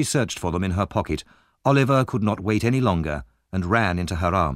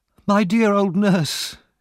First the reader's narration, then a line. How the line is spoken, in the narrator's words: cried Oliver